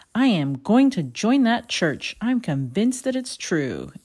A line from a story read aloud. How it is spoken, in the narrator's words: William exclaimed